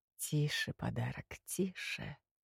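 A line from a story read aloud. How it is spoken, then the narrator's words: Purring into ear. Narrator (Russian): мурлыкнула темнота на ухо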